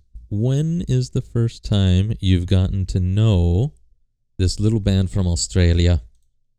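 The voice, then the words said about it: Unclear, wrong put-on accent. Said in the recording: “I don't even know what accent that was. That was a completely wrong accent.”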